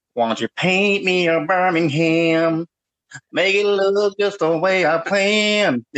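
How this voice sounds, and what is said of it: Imitates another person's singing voice. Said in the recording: “he sounds weird, ... he's the one that sounds like ... I'll show you.”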